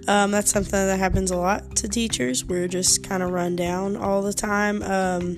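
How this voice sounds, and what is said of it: Slightly rough voice. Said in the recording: “my voice is a little rough ... I don't feel that great”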